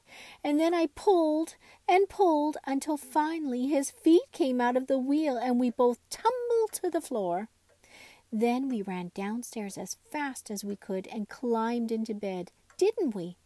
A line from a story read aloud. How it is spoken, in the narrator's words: Raggedy Andy laughed